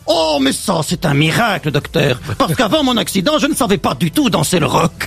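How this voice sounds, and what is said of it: Put-on Belgian French accent. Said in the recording (French): “une histoire drôle de Christophe Beaugrand, avec l'accent belge, s'il vous plaît”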